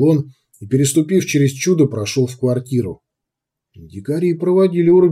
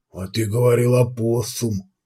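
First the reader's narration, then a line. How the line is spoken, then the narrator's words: Hoarse wheeze. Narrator (Russian): прохрипел маркер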